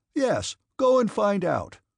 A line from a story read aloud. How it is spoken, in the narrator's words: shouted the angry gentleman